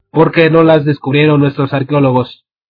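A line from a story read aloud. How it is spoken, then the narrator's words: Child shouting. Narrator (Spanish): gritó un nene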